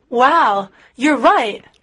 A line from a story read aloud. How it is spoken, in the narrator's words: exclaimed